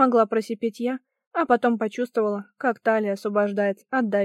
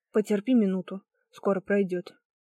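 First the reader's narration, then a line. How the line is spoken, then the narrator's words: Muttering. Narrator (Russian): пробормотал Эддингтон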